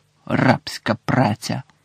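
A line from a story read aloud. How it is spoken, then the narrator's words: Muttered. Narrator (Ukrainian): пробурмотіла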